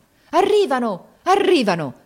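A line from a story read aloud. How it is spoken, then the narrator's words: Joyful cry. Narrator (Italian): ripeté con un grido di gioia il capitano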